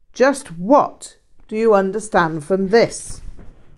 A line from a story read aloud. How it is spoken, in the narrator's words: Rinpoche barked